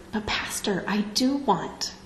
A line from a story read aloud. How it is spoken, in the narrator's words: whispered